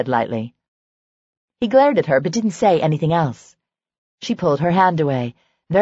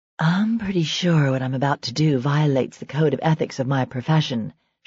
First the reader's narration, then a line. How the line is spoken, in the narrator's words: she said huskily